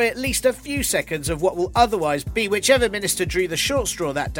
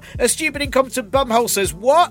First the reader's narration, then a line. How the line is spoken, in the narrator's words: get someone to appear on screen and shout